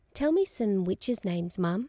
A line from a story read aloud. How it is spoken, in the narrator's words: she said